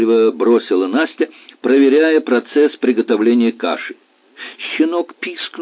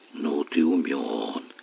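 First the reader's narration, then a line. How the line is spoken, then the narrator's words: Puzzled mutter. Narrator (Russian): озадаченно пробормотала она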